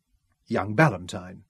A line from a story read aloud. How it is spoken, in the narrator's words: he said coldly